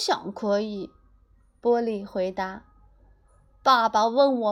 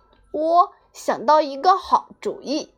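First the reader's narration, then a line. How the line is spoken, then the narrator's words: Happy shout. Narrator (Chinese): 波利高兴的喊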